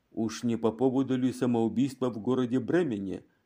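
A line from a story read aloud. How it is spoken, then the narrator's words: Plain question. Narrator (Russian): спросил Ван Дам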